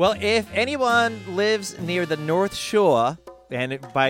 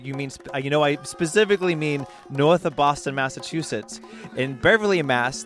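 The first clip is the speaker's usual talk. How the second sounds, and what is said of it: Put-on Boston accent. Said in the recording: “breaking out my Boston accent”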